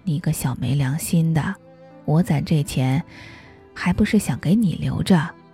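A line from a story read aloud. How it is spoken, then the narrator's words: Weak scolding voice. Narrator (Chinese): 他的声音已经很虚弱了，却依然很爱骂我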